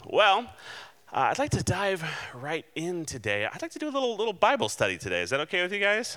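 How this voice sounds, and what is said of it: Slightly hoarse voice. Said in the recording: “if I sound just a little bit hoarse,”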